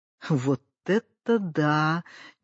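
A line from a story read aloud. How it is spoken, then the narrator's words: Quiet admiration. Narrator (Russian): негромко восхитился Семипалый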